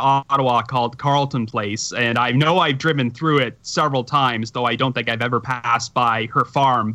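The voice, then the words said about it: Canadian accent. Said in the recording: “saying a boot and saying kilometers ... my Canadian accent”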